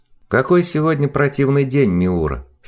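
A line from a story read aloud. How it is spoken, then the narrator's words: Plain. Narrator (Russian): сказала Неферт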